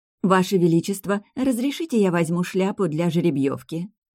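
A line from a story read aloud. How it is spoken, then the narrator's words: Sweet singsong. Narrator (Russian): пропела нежным голосом Маргарет Акфорд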